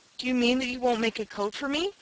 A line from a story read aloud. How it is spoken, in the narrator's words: Timothy Turtle faltered